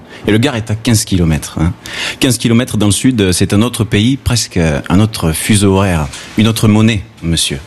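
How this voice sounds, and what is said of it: Southern French accent. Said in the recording (French): “je suis du Sud, j'ai l'accent du Sud ... ah mais toi tu as l'accent du Gard”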